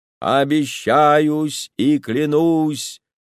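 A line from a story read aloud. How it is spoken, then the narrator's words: Chanting, sing-song. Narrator (Russian): произнес нараспев священник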